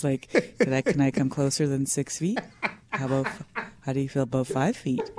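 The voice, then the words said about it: Creepy voice. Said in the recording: “everything's going to come off in that creepy voice.”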